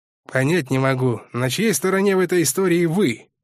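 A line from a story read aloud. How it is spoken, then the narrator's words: Grumbling. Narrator (Russian): проворчал следователь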